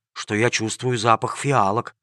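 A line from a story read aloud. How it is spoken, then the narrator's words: Whispered in surprise. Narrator (Russian): удивленно прошептал один из рабочих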